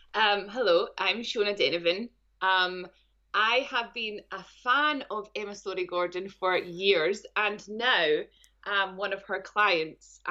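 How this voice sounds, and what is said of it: Speaker with a noticeable accent. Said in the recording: “as you may hear from the accent”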